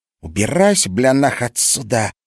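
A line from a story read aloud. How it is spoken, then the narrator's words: Hissing. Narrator (Russian): зашипела Мариша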